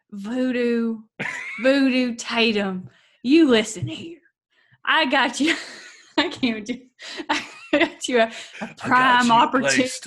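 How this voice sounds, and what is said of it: Impression of Garrity's accent. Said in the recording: “your buddy Garrity accent. I'd like to hear it again.”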